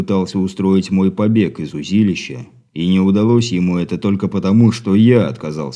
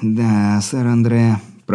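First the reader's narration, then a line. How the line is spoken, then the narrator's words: Hoarse rasp. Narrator (Russian): прохрипел он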